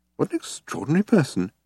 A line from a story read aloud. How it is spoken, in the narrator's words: he muttered to himself